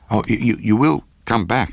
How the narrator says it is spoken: I gasped out

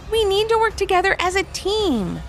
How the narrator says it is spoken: they exclaimed together

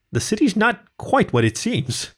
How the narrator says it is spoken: he laughed nervously

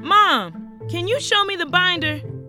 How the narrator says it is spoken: shouted into the other room

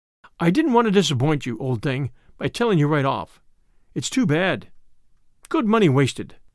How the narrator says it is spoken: he sighed

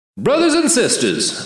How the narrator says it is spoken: the martyr's voice boomed

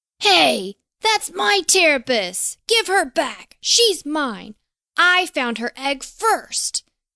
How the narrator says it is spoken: shouted the furious gnome

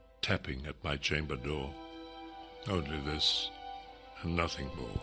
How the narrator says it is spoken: I muttered

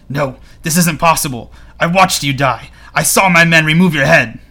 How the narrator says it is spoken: Walder Frey gasps and says

